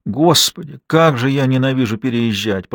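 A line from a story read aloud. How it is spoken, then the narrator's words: Moaning. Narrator (Russian): простонала Анна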